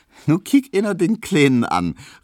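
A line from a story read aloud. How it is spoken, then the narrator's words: Pitying, smiling, yielding call. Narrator (German): rief Hedwig halb mitleidig, halb lächelnd und halb nachgebend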